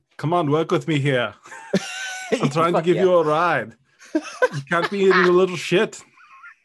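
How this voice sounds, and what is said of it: Imitates another person's voice. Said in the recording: “Do your Toto impression... It's so good... my Arnold is fresh too... Toto is Arnold.”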